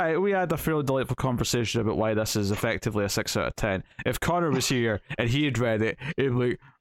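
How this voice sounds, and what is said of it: Usual voice. Nothing is said of it.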